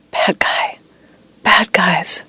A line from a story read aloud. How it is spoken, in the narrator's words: whispering